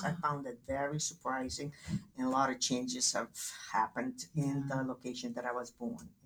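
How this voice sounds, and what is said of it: Polish accent. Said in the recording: “I love your accent... that's inherited from Poland... I haven't been able to lose the accent... it's delicious. I love your accent.”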